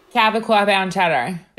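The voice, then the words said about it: Long Island accent. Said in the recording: “Can you say that in your Long Island accent? ... That's so good.”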